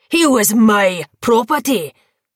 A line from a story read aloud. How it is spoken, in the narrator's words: Cain spat